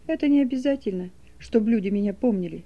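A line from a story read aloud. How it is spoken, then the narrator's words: Quiet. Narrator (Russian): тихо сказал Саша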